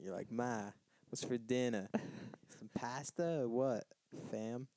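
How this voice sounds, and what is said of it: Put-on New York accent. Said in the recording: “think of a New York accent.”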